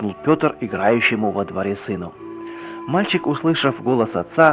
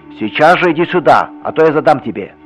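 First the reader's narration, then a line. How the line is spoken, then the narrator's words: Sternly shouting father. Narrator (Russian): еще суровее закричал отец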